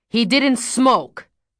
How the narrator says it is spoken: growled Willie

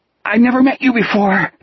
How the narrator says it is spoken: Jack gasped

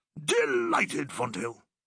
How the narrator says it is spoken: he barked

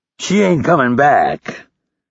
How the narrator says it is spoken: Hurley added in a taunting voice

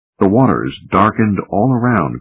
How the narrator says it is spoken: cried Ike

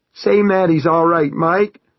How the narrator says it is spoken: John cried in a wavering voice

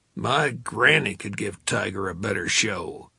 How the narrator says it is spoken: the cigar smoker grumbled

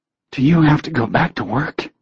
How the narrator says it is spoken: she asked huskily

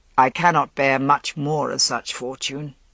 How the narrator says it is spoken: Uther said, and his voice was taut

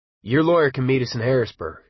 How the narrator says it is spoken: Junkins said

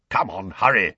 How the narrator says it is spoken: growled Moody

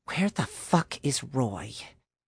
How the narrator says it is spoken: muttered under her breath

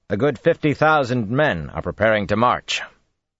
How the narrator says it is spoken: Rand said loudly

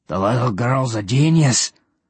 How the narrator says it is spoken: One Eye grumbled

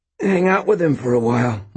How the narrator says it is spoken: Mort gasped

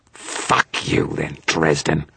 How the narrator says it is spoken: Victor snarled in response to me

